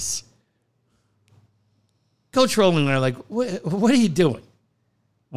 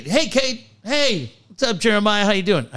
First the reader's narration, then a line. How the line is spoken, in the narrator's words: the kid yells at Cade